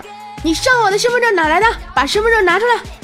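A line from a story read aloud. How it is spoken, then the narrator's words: Loud shout. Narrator (Chinese): 有人 冲虎哥大声喊说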